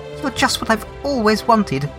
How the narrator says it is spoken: she'd cried

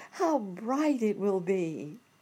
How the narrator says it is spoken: all exclaimed

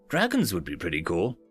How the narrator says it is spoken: the coffee boy said meekly

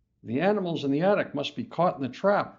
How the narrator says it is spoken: Mom exclaims

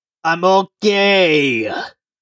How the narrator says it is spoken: cried Brandy's muffled shout from a few inches into a ditch

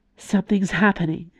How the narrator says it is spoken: Nimue murmured

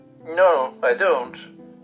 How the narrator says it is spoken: answered Curdie, almost sulkily

